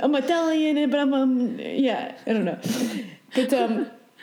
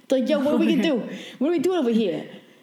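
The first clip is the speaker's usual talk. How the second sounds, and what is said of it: Put-on New York accent. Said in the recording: “why do you have a New York accent? ... souls have a New York accent”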